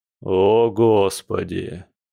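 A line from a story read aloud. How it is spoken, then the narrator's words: Louder groaning bear. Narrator (Russian): громче застонал медведь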